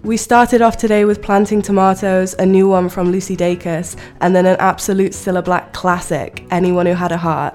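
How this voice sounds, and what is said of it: Slightly off, congested voice from cold. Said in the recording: “the cold I had last week is lingering into this week ... if my voice sounds a bit funny or if you catch me coughing”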